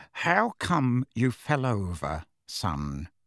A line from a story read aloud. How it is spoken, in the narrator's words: said Uncle Vernon, in an unnaturally quiet voice, the kind of voice he would adopt at the bedside of a very ill person